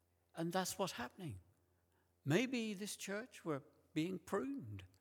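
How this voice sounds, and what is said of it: Usual voice. Nothing is said of it.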